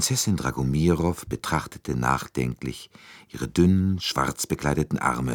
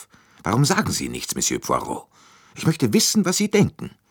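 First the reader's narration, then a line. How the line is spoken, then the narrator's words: Abrupt irritated gruff question. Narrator (German): mit jähem Unmut fragte sie schroff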